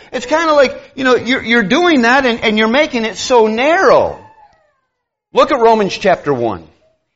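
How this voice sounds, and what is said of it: Raised, passionate loud voice. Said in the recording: “I'm sorry if I'm raising my voice. I'm not raising my voice because I'm angry. ... it's passion ... you can say it in a quieter tone”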